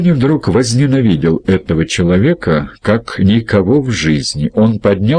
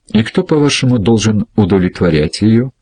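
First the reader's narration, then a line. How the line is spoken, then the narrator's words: Forced calm, betraying anger. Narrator (Russian): Джонни старался говорить спокойно, но гнев выдавал его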